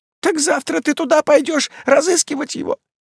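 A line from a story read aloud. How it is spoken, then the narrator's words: Horrified exclamation. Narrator (Russian): с ужасом воскликнула Маас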